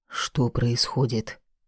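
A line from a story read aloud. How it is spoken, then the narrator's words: Father's whisper. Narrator (Russian): шепнул отец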